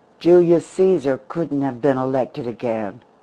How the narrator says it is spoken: he laughed harshly

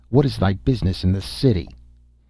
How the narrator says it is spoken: the soldiers who stood on guard said roughly to him

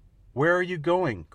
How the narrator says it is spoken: cried Wee Willie Winky

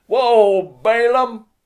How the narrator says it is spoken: He shouted

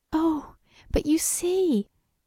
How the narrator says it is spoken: she cried, holding her throat

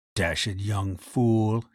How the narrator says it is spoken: he murmured

